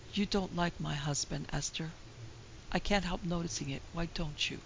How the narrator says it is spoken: The wife's white, sad, oppressed face came very close to the girl's cheerful one, as she murmured in a low voice

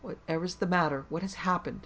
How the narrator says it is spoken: Margaret exclaimed

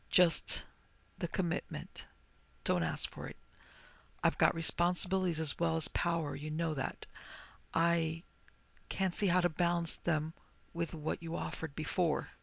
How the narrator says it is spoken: she said very softly

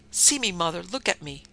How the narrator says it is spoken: She cried

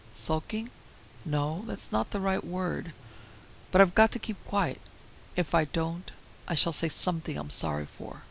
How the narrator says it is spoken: He answered her quietly

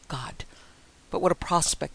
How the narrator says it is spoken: he muttered

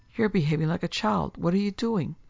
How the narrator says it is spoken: she cried at last

